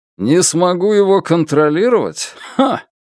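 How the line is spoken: Loud laughter. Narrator (Russian): Начальник Джан расхохотался

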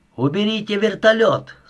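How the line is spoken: Shout through gap. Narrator (Russian): закричал Милошевич в щель между створками

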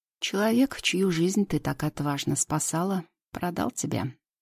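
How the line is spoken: Calm. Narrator (Russian): спокойно произносит Идрис

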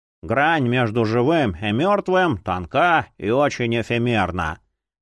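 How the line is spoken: Bored reading aloud. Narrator (Russian): скучающим тоном зачитывал Эдвин Груид Плюсинг

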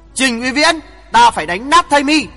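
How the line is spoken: Loud shout through gritted teeth. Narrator (Vietnamese): Hoàng Thượng Chí nghiến răng quát lớn

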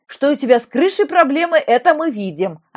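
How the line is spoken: Insulting guffaw, fat man. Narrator (Russian): обидно захохотал толстяк

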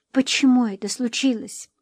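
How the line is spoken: Whispered. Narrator (Russian): прошептала

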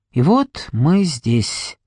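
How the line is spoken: Hollow voice from behind. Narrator (Russian): произнес Говард Карсон пустым голосом позади меня

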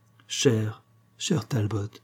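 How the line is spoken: Grateful young woman's murmur. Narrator (French): murmura la jeune femme reconnaissante

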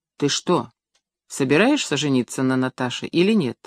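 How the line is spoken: Plain. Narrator (Russian): спросил он

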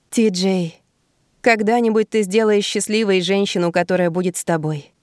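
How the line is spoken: Sighed. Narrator (Russian): вздохнула я

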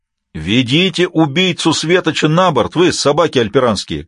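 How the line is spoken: Shouted, mock-courteous. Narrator (Russian): кричал он с любезностью, свойственной мельденейцам

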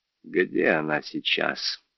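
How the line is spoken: Quiet question. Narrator (Russian): тихо спросила Эмилия

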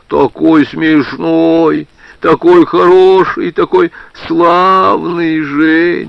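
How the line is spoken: Deep-voiced drawl. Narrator (Russian): Людмила тоже басом протянула

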